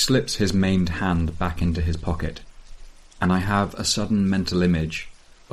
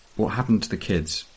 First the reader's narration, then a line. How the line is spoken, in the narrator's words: says, softly